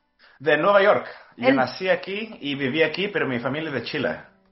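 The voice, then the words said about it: Mixed, hard-to-place Spanish accent. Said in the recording (Spanish): “Tienes un acento raro. O sea, como que ni de acá ni de allá, pero muy bonito.”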